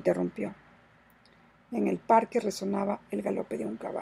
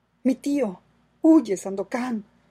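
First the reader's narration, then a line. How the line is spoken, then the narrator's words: Exclaiming. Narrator (Spanish): exclamó Mariana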